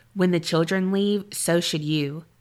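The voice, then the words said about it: Flat deadpan delivery. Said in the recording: “in a deadpan voice”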